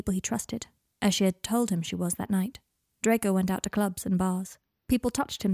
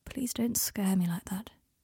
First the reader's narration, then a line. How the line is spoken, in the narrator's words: said, quietly